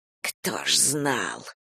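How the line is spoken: Spoken through teeth. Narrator (Russian): процедил директор

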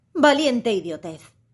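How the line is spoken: Exclaimed, raising voice. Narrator (Spanish): exclamó Alicia alzando la voz

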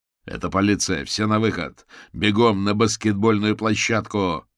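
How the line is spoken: Shouted. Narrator (Russian): крикнул Карвер

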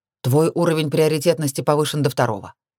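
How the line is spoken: Dry, curt. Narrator (Russian): сухо бросил Оливер

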